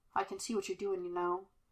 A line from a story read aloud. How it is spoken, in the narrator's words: Kane murmured softly behind him